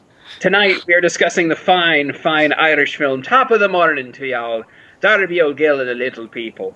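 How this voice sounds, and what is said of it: Put-on Irish brogue. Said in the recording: “How was that? Is that a good Irish? ... That was a nice Irish brogue. ... it's better than mm. Sean Connery's.”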